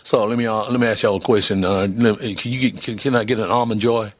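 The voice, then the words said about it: Put-on Southern American accent. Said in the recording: “I went with the southern accent”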